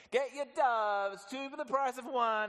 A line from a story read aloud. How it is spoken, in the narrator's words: these guys yelling